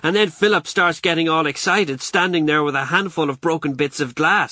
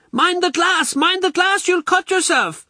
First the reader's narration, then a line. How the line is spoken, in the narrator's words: she shrieks